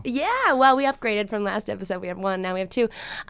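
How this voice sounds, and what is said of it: Stuffy, congested voice from a cold. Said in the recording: “my voice may sound stuffy ... with the sickness”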